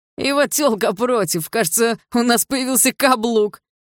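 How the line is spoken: Laughing loudly. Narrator (Russian): расхохотался один из пацанов

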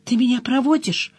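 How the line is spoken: Frightened question. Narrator (Russian): испуганно спросил он

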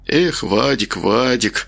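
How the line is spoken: Muttering. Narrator (Russian): пробормотал он

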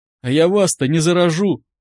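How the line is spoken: Sudden frightened question, man. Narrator (Russian): вдруг испуганно спросил мужчина

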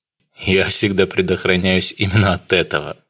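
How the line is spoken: Laughing. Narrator (Russian): рассмеялся Дронго

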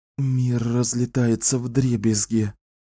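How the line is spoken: Barely audible whisper. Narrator (Russian): прошептала она еле слышно

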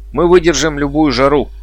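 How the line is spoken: Shouted out. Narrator (Russian): выкрикнул кто-то из отряда

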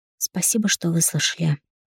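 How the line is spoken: Tired whisper. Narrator (Russian): шепчу уставшим голосом

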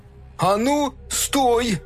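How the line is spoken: Shout. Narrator (Russian): крикнул Фил

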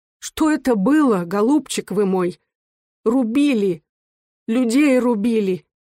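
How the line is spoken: Mother exclaiming with sobs. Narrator (Russian): Мать с рыданием, которого не могла удержать, воскликнула

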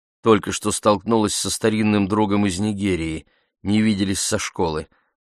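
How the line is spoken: Plain. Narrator (Russian): сказала она Кёрту

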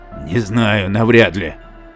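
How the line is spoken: Grumbling mutter, uncle. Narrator (Russian): буркнул ее дядя

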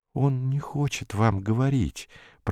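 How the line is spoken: Whisper. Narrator (Russian): прошептал он

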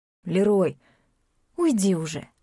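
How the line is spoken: Tired snap. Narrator (Russian): огрызнулась она устало

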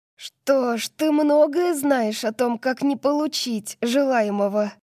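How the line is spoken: Hoarse, forced calm. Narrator (Russian): Мой голос звучит хрипло, жалкая попытка выглядеть спокойной

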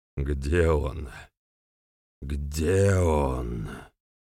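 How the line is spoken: Attacker's hiss. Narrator (Russian): шипение нападавшего

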